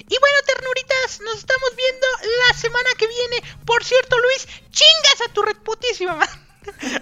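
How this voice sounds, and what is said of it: Put-on girly female voice. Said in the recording (Spanish): “voy a tratar de hacer una voz de, niña ... es de cómo el tío Resaca hablaría si fuera mujer”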